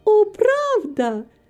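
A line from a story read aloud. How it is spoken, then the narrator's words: Exclamation. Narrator (Russian): воскликнула Рита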